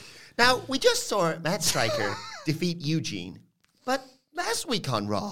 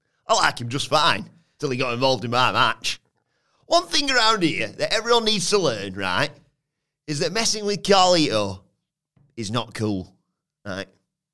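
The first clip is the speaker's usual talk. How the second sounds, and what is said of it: Odd Carlito voice, Chesterfield-sounding. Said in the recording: “I don't know why it sounds like that. ... Just do a normal voice. ... He's from Chesterfield now.”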